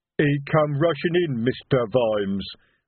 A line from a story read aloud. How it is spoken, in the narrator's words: rumbled Detritus